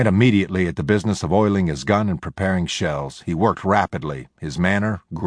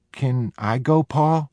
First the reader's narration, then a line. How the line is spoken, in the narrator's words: Jody asked timidly